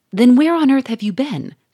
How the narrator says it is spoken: cried Monsieur Fourmeret

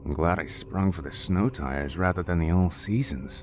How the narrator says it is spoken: James said under his breath

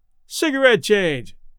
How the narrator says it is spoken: yelled Red

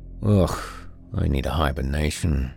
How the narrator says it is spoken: Grizz sighed

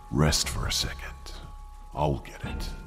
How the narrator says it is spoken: told me calmly

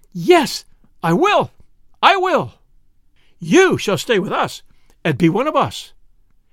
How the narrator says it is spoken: exclaiming

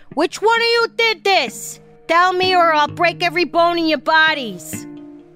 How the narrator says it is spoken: She yelled

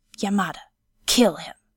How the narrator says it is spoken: Yasutoki hissed

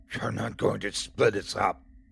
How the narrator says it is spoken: she growls

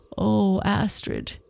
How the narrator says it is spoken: he groaned

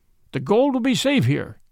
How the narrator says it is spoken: cried one

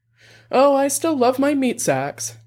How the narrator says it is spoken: Dex said, laughing

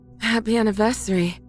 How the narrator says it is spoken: my wife says between pants

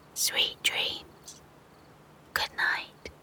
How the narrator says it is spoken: The big sheep whispered

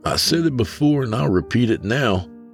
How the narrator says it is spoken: Broderick chuckled

